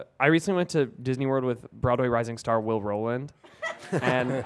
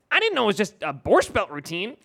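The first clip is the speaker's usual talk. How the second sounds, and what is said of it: Impression of Will Roland. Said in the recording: “That's a really good Will impression. ... I have the best Will Roland impression”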